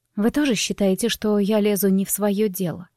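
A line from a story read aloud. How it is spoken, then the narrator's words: Quiet strained speech. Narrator (Russian): Тихо, с трудом выдавила я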